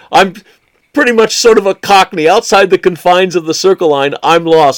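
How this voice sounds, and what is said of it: American accent. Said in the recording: “despite this American accent”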